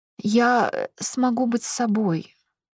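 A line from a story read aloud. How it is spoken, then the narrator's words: Trembling voice. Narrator (Russian): проговорила дрожащим голосом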